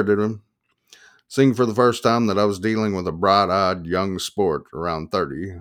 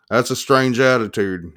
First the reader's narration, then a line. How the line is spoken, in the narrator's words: he said